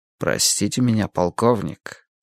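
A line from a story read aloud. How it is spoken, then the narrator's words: Quiet. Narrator (Russian): тихо сказал полковник Геринельдо Маркес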